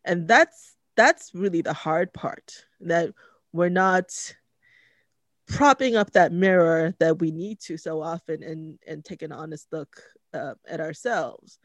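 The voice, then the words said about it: Emotional, tearful voice. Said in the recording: “getting emotional ... I'm going to be crying on camera”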